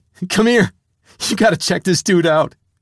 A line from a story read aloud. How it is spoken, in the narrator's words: I was laughing so hard, I called to Nicky